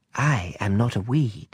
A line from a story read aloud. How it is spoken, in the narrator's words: the flower sweetly replied